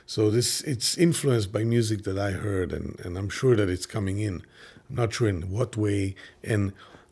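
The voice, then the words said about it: Israeli-accented English. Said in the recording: “like my English, So that's the Israeli, I think that's the Israeli thing”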